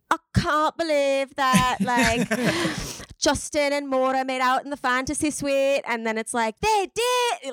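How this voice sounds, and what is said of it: Put-on UK accent. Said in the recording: “killing the accent ... all these different UK accents”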